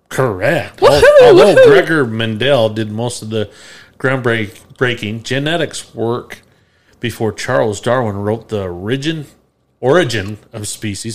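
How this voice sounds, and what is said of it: Speaks with a rural drawl. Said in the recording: “talking like a farmer around here ... you got a drawl”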